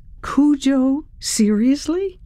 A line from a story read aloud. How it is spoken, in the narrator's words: Ryan laughed